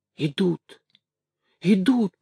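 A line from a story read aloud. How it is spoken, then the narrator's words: Whisper. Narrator (Russian): прошептал он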